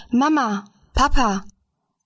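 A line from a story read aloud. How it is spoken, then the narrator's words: Calling out. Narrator (German): rief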